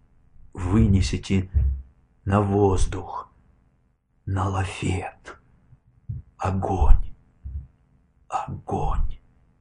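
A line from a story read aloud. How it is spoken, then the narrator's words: Barely whispered, fading. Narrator (Russian): Эти команды он едва прошептал и затих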